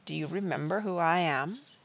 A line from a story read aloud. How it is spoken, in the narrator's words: Will said softly again, this time in the old speech